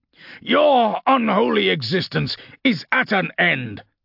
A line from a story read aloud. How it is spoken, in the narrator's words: Castor shouted